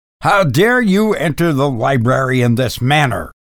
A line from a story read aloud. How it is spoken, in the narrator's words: I demanded sternly